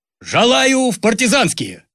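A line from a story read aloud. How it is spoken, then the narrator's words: Loud proud shout. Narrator (Russian): Ленька Шнурков громко выкрикнул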